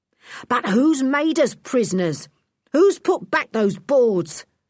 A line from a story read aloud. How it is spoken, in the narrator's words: shouted Lou, almost beside himself with fury